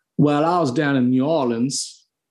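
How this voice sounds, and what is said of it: Attempted Southern American accent. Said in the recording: “I can try a Southern one... It sounds kind of Australian.”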